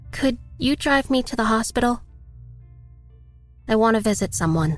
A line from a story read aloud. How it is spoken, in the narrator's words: asked timidly